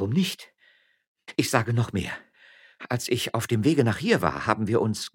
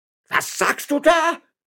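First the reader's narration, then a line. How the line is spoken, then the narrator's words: Shouting. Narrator (German): schrie Herr Juan López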